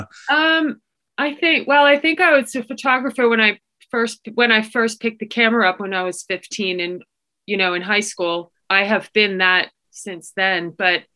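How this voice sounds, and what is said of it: Accent not purely Yorkshire. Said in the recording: “your accent is a little bit not so much just Yorkshire”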